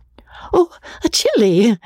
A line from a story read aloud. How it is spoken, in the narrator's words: said Rebecca, gasping